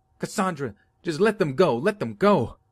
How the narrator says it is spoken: her mom is screaming at her, saying

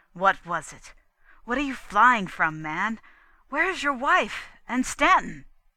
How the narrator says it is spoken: cried

